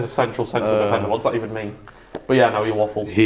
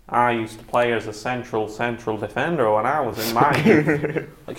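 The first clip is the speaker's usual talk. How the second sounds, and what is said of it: Imitates another person's voice. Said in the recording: “I can actually do a good Matthew McConaughey impression ... he always leans back when he talks”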